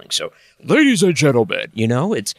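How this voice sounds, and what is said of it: Booming announcer voice. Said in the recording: “did an impression of an announcer ... Kind of put on the weatherman voice.”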